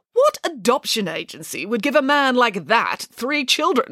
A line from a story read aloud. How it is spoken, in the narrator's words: scoffed Nanny Piggins